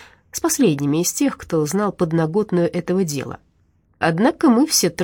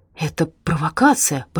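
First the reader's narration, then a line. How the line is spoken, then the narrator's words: Muttering. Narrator (Russian): бормотал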